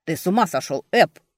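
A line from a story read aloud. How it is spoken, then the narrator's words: Growled. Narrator (Russian): рычал Джесси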